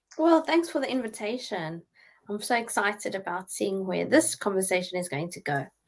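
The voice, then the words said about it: South African accent. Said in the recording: “We could obviously hear a South African accent there”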